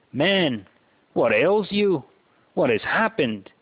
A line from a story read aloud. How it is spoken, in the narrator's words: his wife asks anxiously